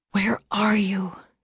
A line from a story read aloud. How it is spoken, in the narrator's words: she whispered out loud